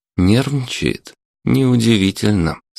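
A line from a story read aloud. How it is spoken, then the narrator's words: Calm reply. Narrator (Russian): спокойно ответил Чернов-младший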